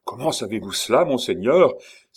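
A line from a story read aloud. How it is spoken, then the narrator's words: Exclaiming in chorus. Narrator (French): s'écrièrent tous ensemble le bourgmestre et les autres membres du conseil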